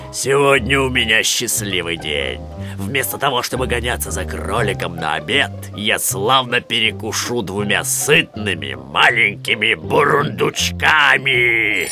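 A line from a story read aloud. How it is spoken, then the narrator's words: Bear growling. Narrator (Russian): Медведь прорычал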